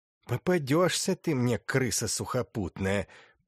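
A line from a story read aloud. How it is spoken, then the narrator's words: Hissing. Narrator (Russian): прошипел он Петушкову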